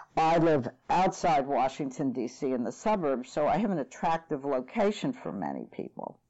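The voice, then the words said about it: American accent. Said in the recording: “it's the United States, obviously, from my accent.”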